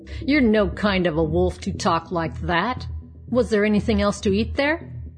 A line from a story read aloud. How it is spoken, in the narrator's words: sneered the bad wolf